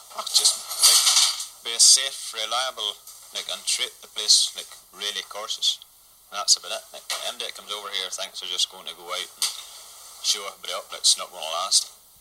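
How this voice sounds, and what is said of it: Strong regional accent. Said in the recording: “Great accent there.”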